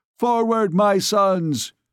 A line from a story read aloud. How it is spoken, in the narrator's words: he cried